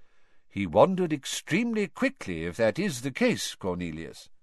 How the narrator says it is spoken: said Dumbledore calmly

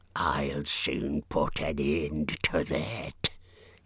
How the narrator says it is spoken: hissed the angry spider

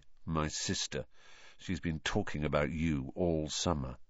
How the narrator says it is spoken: said Ron in an undertone

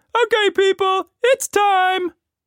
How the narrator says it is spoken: he shouted

